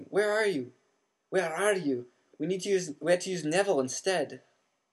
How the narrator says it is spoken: Wood was yelling

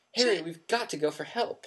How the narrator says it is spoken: Hermione gasped

